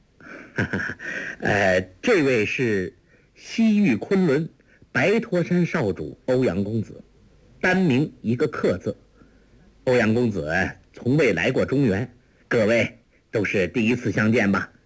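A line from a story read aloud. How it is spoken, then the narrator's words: Laughing. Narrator (Chinese): 完颜康笑道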